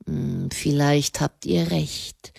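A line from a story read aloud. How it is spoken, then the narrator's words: Murmured. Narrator (German): er murmelte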